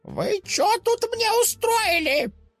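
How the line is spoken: Old woman shouting menacingly. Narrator (Russian): Закричала баба Люба для пущего устрашения

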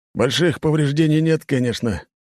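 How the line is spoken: Captain sighing. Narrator (Russian): капитан вздохнул

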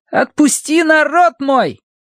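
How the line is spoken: Boys shouting. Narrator (Russian): мальчишки возраста Колина, которые кричали

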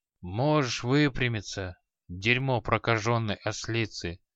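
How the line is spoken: Genial, sleepy old man. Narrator (Russian): благодушно произнес старый маг, сонно плямкая губами

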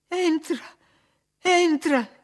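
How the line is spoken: Sobbing. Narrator (Italian): singhiozzò

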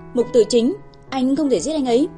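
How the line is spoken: Panicked scream. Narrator (Vietnamese): Mặt cô hoảng sợ trắng bệch, buộc miệng hét

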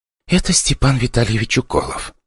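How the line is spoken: Whispering in ear. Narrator (Russian): шептала мне в ухо репортерша

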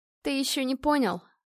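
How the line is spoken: Spiteful smirk. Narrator (Russian): зло усмехнулась Настя

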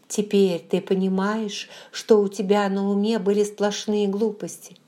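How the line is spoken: Agitated, forcing calm. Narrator (Russian): Я была необычайно взволнована, но старалась говорить спокойно

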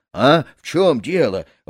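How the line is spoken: Frightened shout on waking. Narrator (Russian): выкрикнул, просыпаясь, перепуганный подай под нос, когда на грудь ему упала жена

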